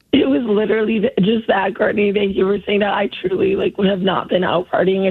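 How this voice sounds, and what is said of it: Hoarse, nearly lost voice. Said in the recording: “Sorry I lost my voice ... your voice sounds that way”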